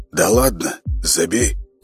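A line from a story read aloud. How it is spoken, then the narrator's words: Chuckling. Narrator (Russian): Костя хохотнул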